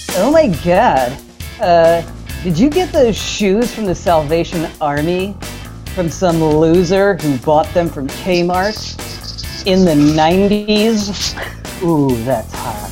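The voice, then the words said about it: Put-on Valley Girl voice. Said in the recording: “is that your Valley Girl impression? ... It was beautiful. No, it was perfect. ... might be the best impression”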